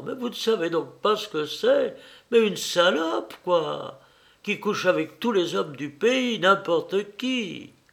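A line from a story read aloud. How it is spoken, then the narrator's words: Irritated brutal exclamation. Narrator (French): énervée par le regard interrogateur qu'il lui jetait, elle s'écria brutalement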